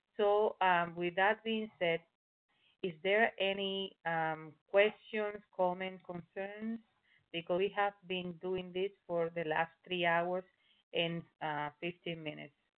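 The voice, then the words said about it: Speaks with an accent. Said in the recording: “despite my accent, you can understand everything I say”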